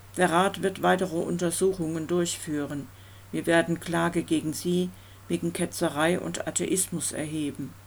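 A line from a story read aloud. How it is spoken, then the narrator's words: Monotone voice. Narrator (German): erklärte Packering mit monotoner Stimme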